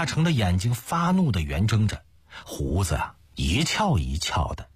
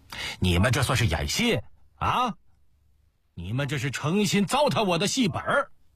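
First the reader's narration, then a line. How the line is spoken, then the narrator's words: Angry stamping shout. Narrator (Chinese): 他跺着脚嚷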